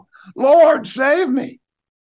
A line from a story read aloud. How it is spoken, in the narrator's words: He began to sink and he cried out